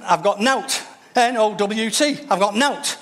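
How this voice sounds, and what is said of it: Put-on Yorkshire accent. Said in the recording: “If she had a Yorkshire accent,”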